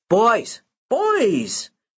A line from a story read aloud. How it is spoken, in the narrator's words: Anthony hollers